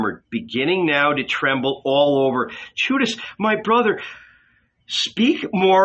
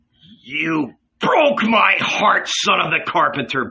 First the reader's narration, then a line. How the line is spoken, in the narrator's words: bellowed Judas